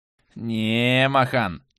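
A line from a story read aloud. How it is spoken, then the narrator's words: Pleased drawl. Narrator (Russian): Довольно протянулся Бантул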